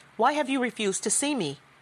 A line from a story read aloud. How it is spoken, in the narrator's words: asked